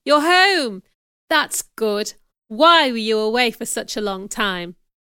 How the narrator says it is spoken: cried

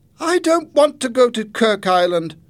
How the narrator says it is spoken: Jenny cried

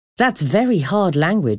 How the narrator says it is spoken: I said

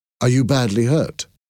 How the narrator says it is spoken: I asked him

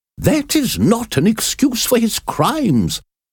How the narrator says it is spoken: exclaimed the judge angrily

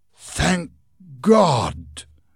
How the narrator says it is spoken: gasped Mr

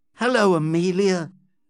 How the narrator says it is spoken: said Dobbin, looking at her tenderly

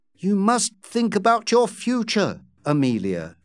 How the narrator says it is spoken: she said firmly

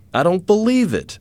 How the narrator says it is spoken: exclaimed the tall man

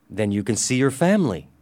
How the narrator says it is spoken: I said cheerfully

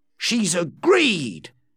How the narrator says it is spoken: he said excitedly to Jane

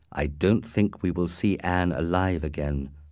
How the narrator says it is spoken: replied quietly

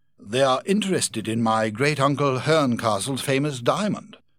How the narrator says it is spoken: exclaimed

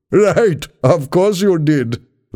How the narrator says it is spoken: laughed the young man

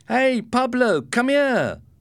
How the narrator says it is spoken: cried Ricardo

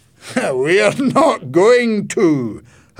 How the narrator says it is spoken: her grandfather laughed

